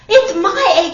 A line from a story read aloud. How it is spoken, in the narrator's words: she sputtered